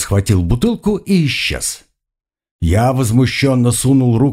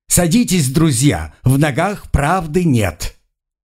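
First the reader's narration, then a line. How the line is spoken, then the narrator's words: Joyful shout. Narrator (Russian): Он увидел вино и радостно крикнул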